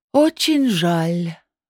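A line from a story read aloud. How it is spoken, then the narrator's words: Sorcerer's sigh. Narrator (Russian): вздохнул колдун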